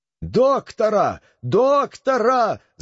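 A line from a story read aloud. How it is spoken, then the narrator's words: Prince shouting in alarm. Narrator (Russian): закричал принц, забывая свое раздражение при этом зрелище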